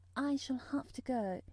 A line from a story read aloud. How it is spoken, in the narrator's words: she said mournfully